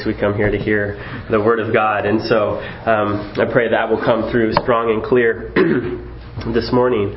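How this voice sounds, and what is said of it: Congested, cold-affected voice. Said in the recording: “I have a bit of a cold today. Hopefully it won't be distracting. We don't come here to hear my radio voice.”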